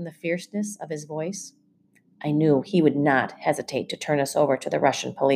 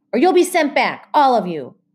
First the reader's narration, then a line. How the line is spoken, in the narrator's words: the guard barked